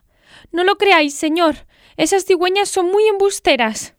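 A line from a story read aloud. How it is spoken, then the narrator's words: Startled exclamation. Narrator (Spanish): Lena exclamó sobresaltada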